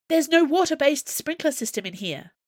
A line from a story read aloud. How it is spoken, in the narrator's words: she said frantically